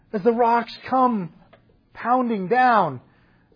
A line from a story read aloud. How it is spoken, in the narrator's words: Stephen cries out